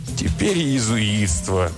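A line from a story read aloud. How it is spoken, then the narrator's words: Groaning. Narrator (Russian): простонал Бартоломи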